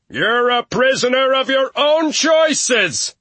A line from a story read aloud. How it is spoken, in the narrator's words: when he was two fences over did he shout